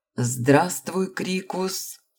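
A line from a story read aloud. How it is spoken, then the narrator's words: Forced, strained greeting. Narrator (Russian): выдавил из себя целитель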